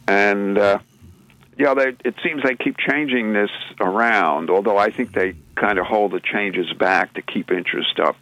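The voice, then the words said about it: Australian accent. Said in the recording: “I still have my Melbourne, Australian accent”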